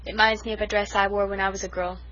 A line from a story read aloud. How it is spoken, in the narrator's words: sighed Cousin Sophia